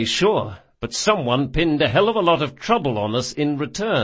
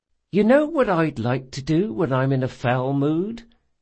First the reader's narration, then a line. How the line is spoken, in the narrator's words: said Esri sweetly